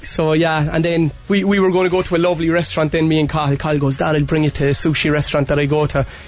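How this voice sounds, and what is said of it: Strong Cork Irish accent. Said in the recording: “my Cork accent was gone, like you neutralised it last week, but obviously not... it's back with a vengeance this morning.”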